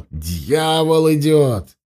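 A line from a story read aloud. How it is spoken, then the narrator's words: Shouting. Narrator (Russian): Ассасин кричал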